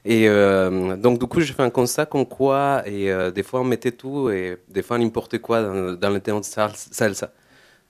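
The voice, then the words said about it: Non-local foreign accent in French. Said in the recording (French): “je pense que vous entendez à mon accent que je ne suis pas de la Lozère”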